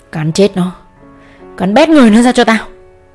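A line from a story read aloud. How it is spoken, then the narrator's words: Old man screaming full force. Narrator (Vietnamese): Lão dùng hết sức lão gào lên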